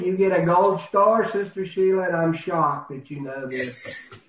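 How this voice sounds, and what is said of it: Sarcastic tone. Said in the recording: “I'm being sarcastic, of course.”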